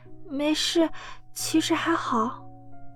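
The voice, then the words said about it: Quiet, soft-spoken voice. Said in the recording (Chinese): “小声说道”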